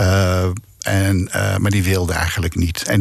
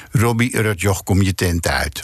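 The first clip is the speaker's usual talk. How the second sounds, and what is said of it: Mother character, Amsterdam accent. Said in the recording (Dutch): “dan had ik een Amsterdamse accent gegeven. En die moeder riep dan steeds...”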